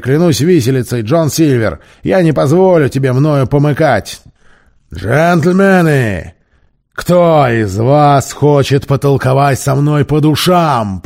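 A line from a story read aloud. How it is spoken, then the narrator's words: Roaring. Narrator (Russian): проревел Сильвер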